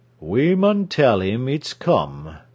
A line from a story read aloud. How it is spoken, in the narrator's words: said slowly